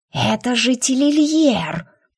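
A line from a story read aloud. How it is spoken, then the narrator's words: Hissing snake, just woken. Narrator (Russian): проснувшись, прошипела змея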